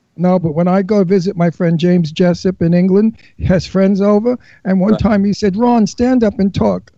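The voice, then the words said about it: Brooklyn accent. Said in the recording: “a character actor from Brooklyn ... They love the Brooklyn accent there ... everybody loves your accent”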